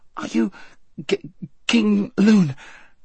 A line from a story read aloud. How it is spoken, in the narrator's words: gasped Shasta